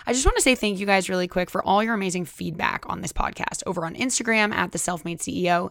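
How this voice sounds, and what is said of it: Strained, worn-out voice. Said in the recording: “my voice is also always gone when I record”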